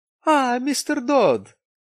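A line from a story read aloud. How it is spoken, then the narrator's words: Exclaimed. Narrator (Russian): воскликнул он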